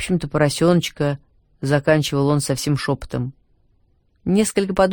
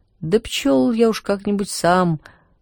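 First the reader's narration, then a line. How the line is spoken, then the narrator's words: Timid, backing down. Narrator (Russian): робко отступал Иван Тимофеевич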